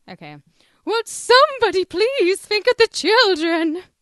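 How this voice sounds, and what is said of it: Imitates a cartoon character's voice. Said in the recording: “our best impression of Reverend Lovejoy's wife? ... Helen Lovejoy. Should we have a Helen Lovejoy off?”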